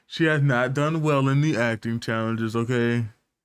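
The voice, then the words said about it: Imitates another person's voice. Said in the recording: “doing a Donald Trump impersonation?”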